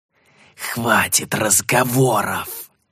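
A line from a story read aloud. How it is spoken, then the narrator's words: Angry hiss. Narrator (Russian): зло прошипел колдун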